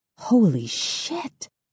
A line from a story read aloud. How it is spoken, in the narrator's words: I whisper